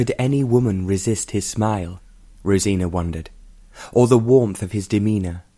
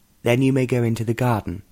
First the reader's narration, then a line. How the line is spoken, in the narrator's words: said